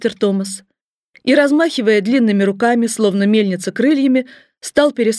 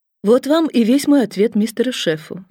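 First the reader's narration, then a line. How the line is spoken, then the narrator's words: Calm, from above. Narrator (Russian): спокойно произнесла со своей высоты тетушка Дора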